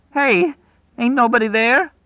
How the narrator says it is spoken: Lloyd cried, his voice breaking

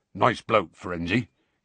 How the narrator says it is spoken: he said gruffly

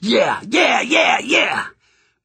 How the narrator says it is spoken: I was screaming along with the rest of the Mongols

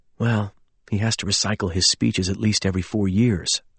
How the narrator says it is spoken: I whispered

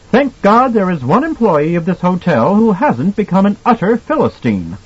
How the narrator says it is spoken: Brandt smiled triumphantly, said loudly

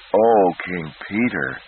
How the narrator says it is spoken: he moaned

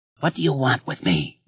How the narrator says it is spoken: he asked hoarsely

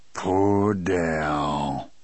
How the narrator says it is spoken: he said in a low, hoarse voice

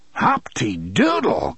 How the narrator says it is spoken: cried Mr

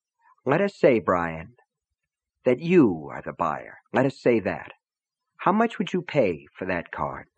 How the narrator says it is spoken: Gaunt said softly

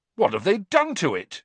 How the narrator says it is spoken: Cedric said indignantly

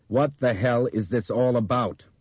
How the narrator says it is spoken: Brian asked Bob sternly

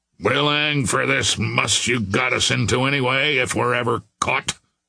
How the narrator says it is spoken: growled the mate

